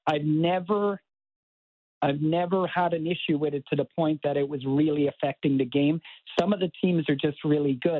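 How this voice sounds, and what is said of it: Irish accent. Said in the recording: “there you have an accent. ... born and raised in Cork in Ireland”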